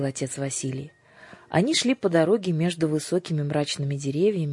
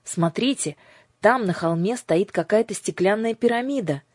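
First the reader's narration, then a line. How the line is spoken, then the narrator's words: Shouted. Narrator (Russian): крикнул Андрюша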